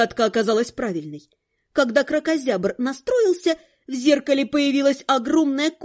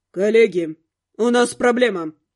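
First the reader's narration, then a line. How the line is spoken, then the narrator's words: Through gritted teeth. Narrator (Russian): процедил Каст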